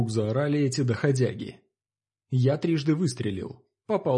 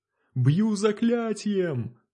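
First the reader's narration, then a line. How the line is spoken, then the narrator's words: Sudden yell. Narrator (Russian): вдруг заорала она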